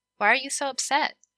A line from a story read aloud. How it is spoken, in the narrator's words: she asked